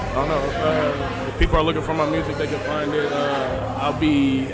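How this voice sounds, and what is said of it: Deep, loud male voice. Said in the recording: “I just got a deep voice, so I got to speak loud.”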